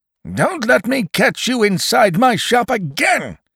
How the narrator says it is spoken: shouted the old man

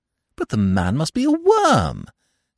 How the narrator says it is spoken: said Eve indignantly

